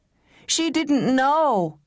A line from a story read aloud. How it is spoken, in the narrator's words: howled the wicked boy